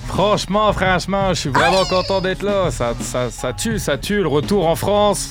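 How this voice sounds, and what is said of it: Speaks with a newly acquired accent. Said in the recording (French): “Il est revenu transformé avec un accent ... garde-le, ça fait partie de ta personnalité maintenant”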